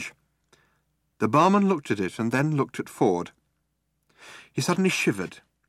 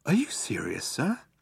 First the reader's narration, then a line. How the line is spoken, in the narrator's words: he said in a small whisper